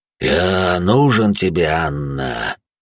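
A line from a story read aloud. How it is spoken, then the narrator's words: Dull rumble from ahead. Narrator (Russian): Глухо пророкотало впереди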